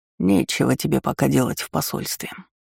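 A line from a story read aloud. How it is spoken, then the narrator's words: Mumbled. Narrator (Russian): пробормотал Брит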